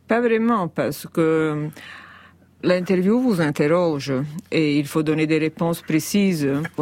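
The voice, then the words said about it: Italian accent in French. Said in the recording (French): “je redoute horriblement mon accent italien ... c'est l'accent qui fait le charme de vos interventions”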